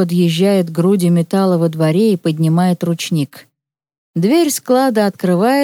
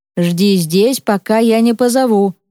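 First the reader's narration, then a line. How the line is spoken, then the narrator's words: Stern. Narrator (Russian): строго говорит он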